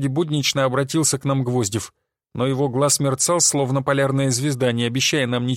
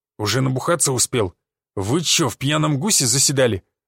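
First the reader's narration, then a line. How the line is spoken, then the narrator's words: Growled. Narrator (Russian): зарычал глава СОХ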